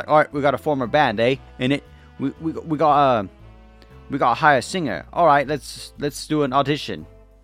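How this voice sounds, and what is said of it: Weak put-on British accent. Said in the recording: “Why the fuck did I do a British accent? I'm sorry. I'm not good at those.”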